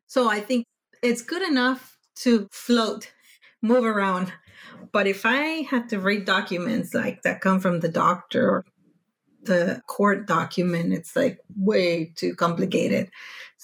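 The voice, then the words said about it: Non-native English accent. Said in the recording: “they haven't heard my accent”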